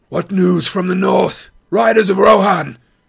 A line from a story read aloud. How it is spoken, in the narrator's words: Aragorn called in a loud voice